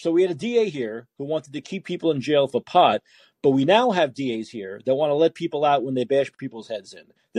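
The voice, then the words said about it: Brooklyn New York accent. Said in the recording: “I thought you were on the East Coast. ... Because of my accent, maybe? ... I'm from Brooklyn”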